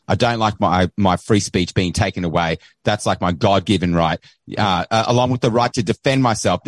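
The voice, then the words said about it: Australian accent. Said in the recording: “Don't let the accent fool you. ... weighing in from across the ocean ... what's happening in Australia”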